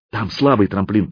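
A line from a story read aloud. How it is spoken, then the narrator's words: Whispering. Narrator (Russian): прошептал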